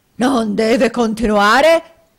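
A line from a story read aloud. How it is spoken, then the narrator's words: Nearly screaming. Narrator (Italian): gridò Squeers quasi con un urlo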